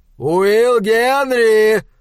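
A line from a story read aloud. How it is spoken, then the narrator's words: Shout. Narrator (Russian): прокричал доктор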